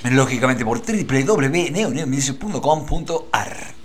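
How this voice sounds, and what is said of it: Exaggerated radio announcer voice. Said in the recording (Spanish): “Vamos a decirlo así con voz de locutor.”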